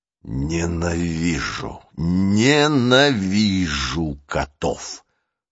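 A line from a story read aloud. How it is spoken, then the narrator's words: Hissed through teeth. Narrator (Russian): прошипел он сквозь зубы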